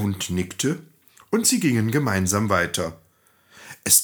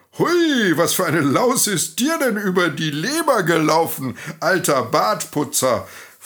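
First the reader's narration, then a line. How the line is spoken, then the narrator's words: Donkey asking, laughing kindly. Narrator (German): fragte freundlich lachend der Esel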